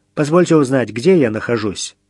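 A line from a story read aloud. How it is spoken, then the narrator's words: Carefully neutral question. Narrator (Russian): Как можно более нейтральным тоном Митя спросил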